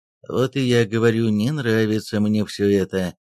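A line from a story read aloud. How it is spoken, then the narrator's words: Grumbling. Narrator (Russian): проворчал Пушкин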